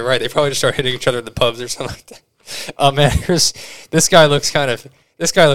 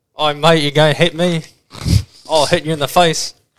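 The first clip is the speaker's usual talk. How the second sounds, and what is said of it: Attempted Australian accent, not done well. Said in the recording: “I think that's like more Australia. I don't know how to do the accent”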